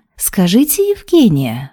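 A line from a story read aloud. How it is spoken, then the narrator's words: Ingratiating boss. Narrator (Russian): вкрадчиво произнес босс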